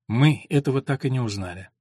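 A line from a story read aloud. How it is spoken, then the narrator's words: Calm. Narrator (Russian): сказала спокойно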